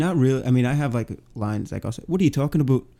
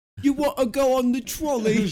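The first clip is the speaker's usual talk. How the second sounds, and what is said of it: Put-on Cockney accent. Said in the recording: “I could do a great Cockney.”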